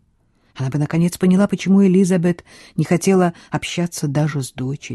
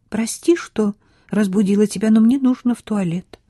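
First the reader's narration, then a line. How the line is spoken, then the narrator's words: Timid. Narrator (Russian): робко сказала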